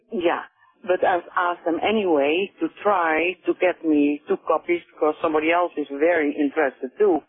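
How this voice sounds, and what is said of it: Dutch-accented English. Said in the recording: “I hear an accent in you... From Holland.”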